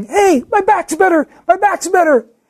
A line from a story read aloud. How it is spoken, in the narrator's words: the guy starts shouting